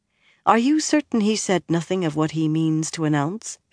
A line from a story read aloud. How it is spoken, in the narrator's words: she asked quietly